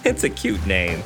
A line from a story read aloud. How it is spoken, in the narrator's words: she laughed